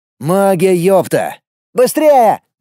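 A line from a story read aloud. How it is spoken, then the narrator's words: Shout. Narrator (Russian): крикнул Костя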